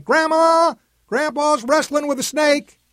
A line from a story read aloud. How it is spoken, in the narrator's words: yelling